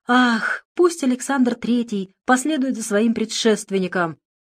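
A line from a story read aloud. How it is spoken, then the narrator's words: Exclaimed. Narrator (Russian): воскликнул Владимир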